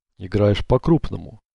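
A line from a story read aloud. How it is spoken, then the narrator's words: Serious tone. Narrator (Russian): серьезным тоном проговорил лис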